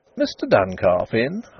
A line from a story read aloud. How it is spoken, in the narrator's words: asked the young woman, brightly